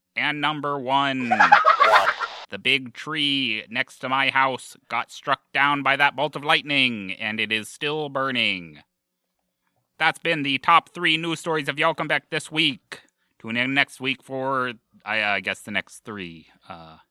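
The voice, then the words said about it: 1950s radio host voice. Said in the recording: “doing an impersonation of a 50s radio host? What is this voice?”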